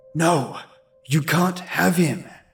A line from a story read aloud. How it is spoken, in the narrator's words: whispered angrily